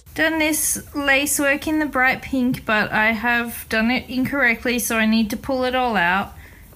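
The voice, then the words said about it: Irish or Scottish-sounding accent. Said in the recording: “her accent is much more exaggerated now on some words. The flavor is much more Irish / Scottish, maybe ... foreign accent syndrome”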